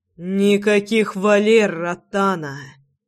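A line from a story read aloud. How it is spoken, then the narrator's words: Hiss. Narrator (Russian): прошипел я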